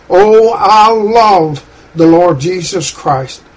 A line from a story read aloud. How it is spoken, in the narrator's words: she gained courage, and with tears streaming down her cheeks, she cried